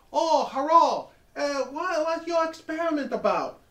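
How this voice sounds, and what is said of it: Impression of a Chinese girl. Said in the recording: “that Chinese girl who discovered DNA sequencing sits next to him and goes ... That's a very good impression.”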